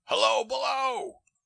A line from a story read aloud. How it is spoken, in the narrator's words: he cried down the open hatch